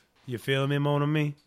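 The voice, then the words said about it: Put-on Cajun accent, Gambit. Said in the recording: “I think I got a better Cajun accent than you.”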